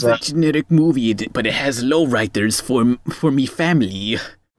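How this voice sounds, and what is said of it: Weak attempt at Mexican accent. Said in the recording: “I can't even do a Mexican accent.”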